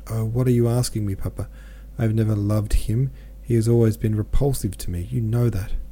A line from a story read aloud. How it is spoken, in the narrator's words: wept afresh, sobbed out